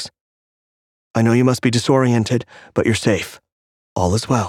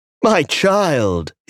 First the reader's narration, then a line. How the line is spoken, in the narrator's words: he cried